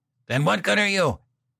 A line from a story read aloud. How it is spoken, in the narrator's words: yelled